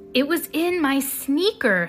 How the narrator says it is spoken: cried

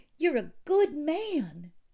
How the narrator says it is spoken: she said desperately

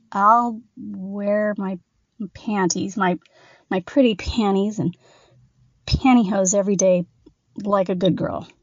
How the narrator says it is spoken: stammered Thad

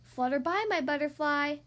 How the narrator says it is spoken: I called out to my friend

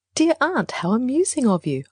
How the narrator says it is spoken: I said smoothly

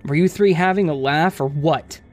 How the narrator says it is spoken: he said angrily

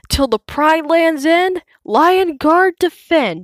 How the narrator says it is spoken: he shouts

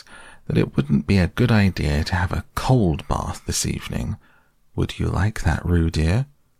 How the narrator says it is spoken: said Kanga in a thoughtful voice

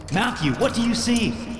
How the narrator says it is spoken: I shouted

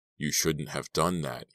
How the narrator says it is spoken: he growled

